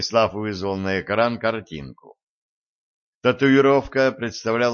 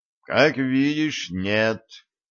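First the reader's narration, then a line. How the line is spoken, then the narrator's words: Weary sigh. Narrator (Russian): устало вздохнул начальник отдела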